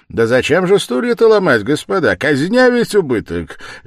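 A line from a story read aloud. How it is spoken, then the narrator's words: Cheerful shout. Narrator (Russian): весело закричал Порфирий Петрович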